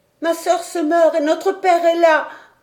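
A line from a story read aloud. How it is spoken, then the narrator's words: Exclaimed. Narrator (French): s'écria Robert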